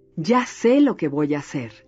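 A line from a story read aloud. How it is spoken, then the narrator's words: Woman exclaiming. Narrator (Spanish): exclamó ella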